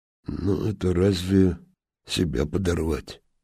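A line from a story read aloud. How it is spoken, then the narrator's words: Quiet objection. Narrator (Russian): тихо возразил Сухорукий Чистяков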